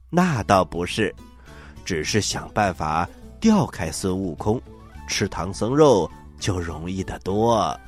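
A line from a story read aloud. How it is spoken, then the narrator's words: Hurried, laughing. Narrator (Chinese): 狼精连忙笑着说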